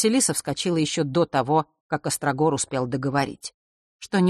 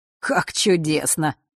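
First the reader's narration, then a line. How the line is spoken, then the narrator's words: Cheerful chuckle. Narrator (Russian): хохотнул, явно возвращаясь в прекрасное расположение духа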